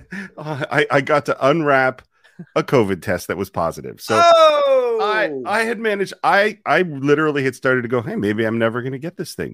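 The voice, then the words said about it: Congested, stuffed-up voice. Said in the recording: “You sound a little stuffed up... as you can hear from my voice”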